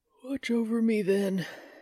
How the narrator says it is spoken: said with a yawn

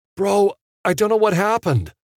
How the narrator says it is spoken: Connor pleaded

